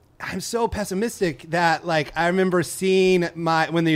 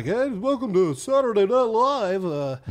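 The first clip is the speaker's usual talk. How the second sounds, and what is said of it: Don Pardo announcer impression. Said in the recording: “my impression of Don Pardo”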